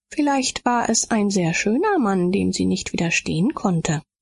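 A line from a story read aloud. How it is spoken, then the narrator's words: Plain. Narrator (German): sagte Hilde Spitzer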